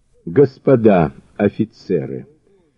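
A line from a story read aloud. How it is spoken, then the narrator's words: Snorting. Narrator (Russian): хмыкнул Мазур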